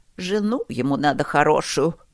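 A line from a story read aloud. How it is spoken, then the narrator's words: Grumbling. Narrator (Russian): ворчала миссис Катерина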